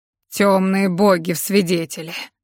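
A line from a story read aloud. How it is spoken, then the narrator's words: Growling. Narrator (Russian): зарычал стражник Фред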